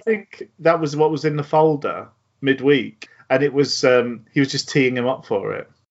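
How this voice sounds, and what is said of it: Usual voice. Nothing is said of it.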